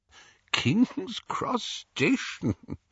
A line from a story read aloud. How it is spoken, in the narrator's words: Dumbledore was chuckling immoderately